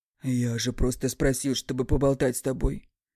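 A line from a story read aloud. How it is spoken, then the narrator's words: Muttering. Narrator (Russian): бормочет Алехандро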